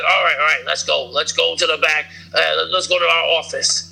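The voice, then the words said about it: Poor imitation of another person's voice. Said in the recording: “that was a terrible impression... Yeah, that was bad, man.”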